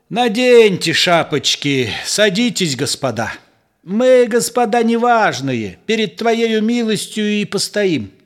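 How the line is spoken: Bitter, after laughing. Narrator (Russian): Нахохотавшись досыта, помещик не без горечи сказал

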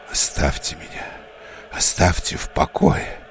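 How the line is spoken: Angry hissing whisper. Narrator (Russian): сказал отец Олимпий гневным свистящим шепотом

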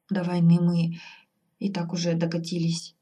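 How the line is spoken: Adviser's heavy sigh. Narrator (Russian): тяжко вздохнул советник

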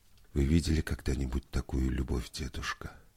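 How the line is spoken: Quiet question. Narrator (Russian): тихо спросила Вера

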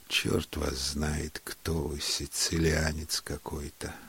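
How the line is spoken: Sleepy. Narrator (Russian): сказал он сонно

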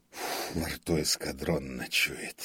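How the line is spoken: Grumbling. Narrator (Russian): проворчал он

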